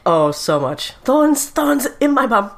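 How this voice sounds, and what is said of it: Badly done put-on accent. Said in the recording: “That was a really bad accent. ... Just stop trying to do the accent.”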